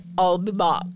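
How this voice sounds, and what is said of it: Thick put-on foreign villain accent. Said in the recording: “In his thick Barovian accent. Although that wasn't even Schwarzenegger accent”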